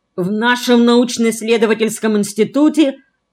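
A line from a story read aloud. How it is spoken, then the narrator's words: Stern. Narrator (Russian): начал строго Оленев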